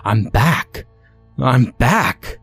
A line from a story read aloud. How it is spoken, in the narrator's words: repeated